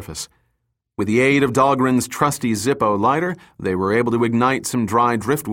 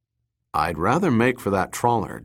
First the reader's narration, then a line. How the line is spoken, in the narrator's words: Dirk said